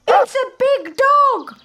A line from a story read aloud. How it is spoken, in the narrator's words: the birds shout